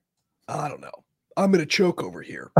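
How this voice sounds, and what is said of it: Choked-up, emotional voice. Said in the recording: “You're getting all choked up. ... Emotional. I'm emotional.”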